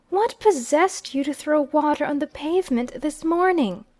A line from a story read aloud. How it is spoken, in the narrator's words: I exclaimed